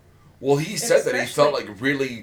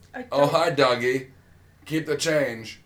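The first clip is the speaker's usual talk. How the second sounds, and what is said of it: Weird Eastern European accent impression. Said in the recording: “his weird accent ... The weird, like, East European ... I don't even know what kind of accent that is ... It's Eastern European”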